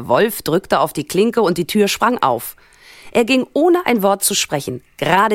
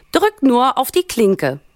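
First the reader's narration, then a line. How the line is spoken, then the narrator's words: Grandmother calling from inside. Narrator (German): rief die Großmutter von drin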